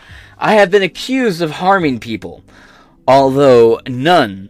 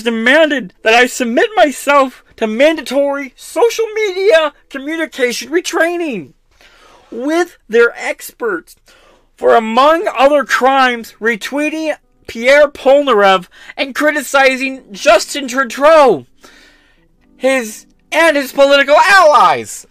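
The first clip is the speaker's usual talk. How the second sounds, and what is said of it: Imitates another person's voice. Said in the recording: “I really lost it at the end, but you get the idea... I'm just going to read normally here. I can't do that voice for a second. I need a break on it.”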